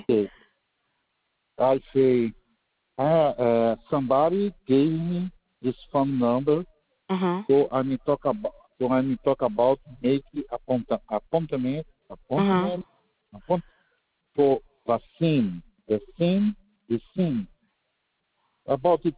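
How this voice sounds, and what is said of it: Strong non-native English accent. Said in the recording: “Your accent is, like, very strong.”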